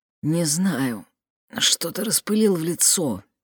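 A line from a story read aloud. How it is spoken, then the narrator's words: Quiet answer. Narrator (Russian): тихо ответил Адам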